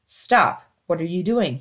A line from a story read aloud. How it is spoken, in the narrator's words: he asked